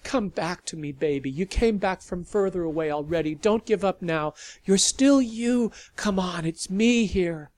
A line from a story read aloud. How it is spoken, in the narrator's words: begged